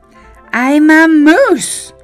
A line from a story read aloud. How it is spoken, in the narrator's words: cried Morris